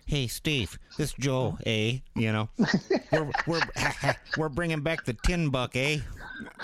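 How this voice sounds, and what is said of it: Attempted Wisconsin accent impression. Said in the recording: “Let me try to give you my best Joe ... I don't know how to do a Wisconsin accent”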